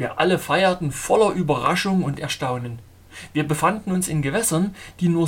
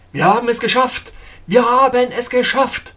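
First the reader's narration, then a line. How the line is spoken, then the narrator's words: Captain calling out. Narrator (German): Der Kapitän rief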